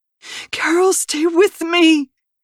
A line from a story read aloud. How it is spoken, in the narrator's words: Nicole pleaded